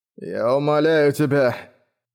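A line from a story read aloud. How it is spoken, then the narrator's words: Moaning. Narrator (Russian): простонал он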